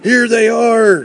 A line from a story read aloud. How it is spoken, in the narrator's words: shouted a man